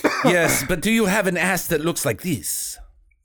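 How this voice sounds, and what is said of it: Poor put-on Belgian accent. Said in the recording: “It's a pretty shitty Belgian accent.”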